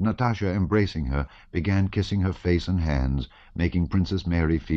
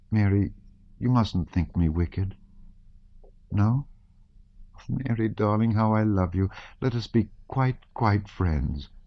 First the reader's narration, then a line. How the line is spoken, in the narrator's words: she said timidly